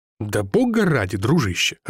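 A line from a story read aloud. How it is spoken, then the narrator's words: Irritated. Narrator (Russian): раздраженно сказал я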